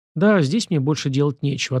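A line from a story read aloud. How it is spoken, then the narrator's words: Plain. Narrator (Russian): ответил я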